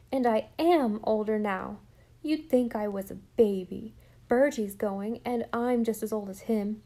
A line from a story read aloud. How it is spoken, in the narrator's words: cried Jem indignantly